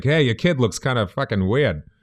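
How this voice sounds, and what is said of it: Put-on Boston accent. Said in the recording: “Boston accent ... I can turn it on at a moment's notice ... I definitely picked it up”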